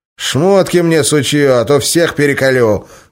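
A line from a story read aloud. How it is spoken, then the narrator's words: Devil's threatening bark. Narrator (Russian): угрожающе рявкнул черт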